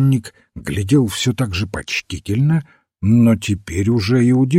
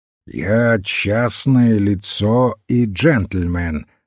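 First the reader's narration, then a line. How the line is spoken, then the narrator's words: Plain. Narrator (Russian): сказал Масгрейв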